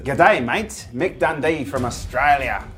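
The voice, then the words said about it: Put-on Australian accent. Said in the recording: “Say good day, mate, in an Australian accent.”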